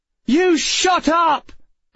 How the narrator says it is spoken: Emma shouted

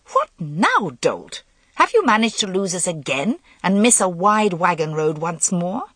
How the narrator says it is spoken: she demanded crossly

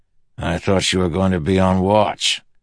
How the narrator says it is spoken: Teft growled at Lopin

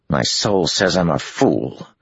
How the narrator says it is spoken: Matt growled

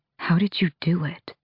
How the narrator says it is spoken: He whispered

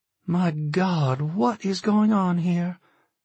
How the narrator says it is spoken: Jen gasped

